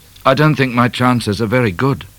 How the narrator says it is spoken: he said sadly to O'Grady

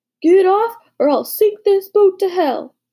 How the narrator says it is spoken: shouted

